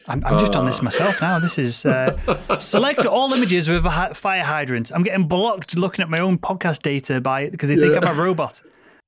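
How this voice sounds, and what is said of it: Speaks with a foreign accent. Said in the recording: “you have an accent”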